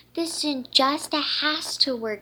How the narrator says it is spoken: she cried

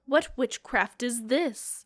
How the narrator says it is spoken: his voice quivered

